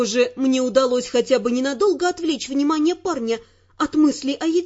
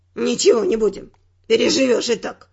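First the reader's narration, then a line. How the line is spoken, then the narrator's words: Rude. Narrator (Russian): грубо сказал он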